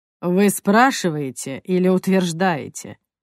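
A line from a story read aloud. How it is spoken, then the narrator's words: Snorting. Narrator (Russian): хмыкнул инспектор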